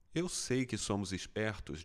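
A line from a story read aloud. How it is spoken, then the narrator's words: Plain. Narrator (Portuguese): disse Hall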